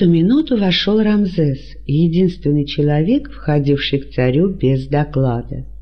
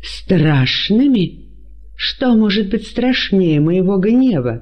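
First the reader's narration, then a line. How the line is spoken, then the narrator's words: Exclaiming. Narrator (Russian): воскликнул Ирод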